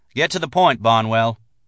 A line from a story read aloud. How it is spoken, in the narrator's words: Silas listened impatiently, then said